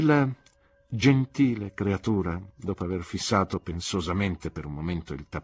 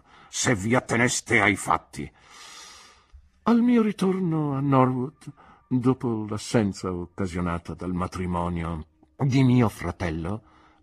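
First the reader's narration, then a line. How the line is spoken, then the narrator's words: Scornful voice. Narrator (Italian): proseguì Miss Marston con voce sdegnosa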